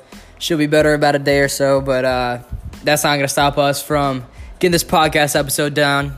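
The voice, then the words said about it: Raspy, slightly hoarse sick voice. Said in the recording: “I'm a little sick, so if my voice is a little raspy or hard to understand... Just getting over a small little cold”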